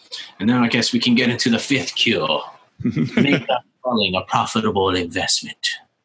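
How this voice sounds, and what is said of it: Put-on accent. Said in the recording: “I don't know where this accent comes from.”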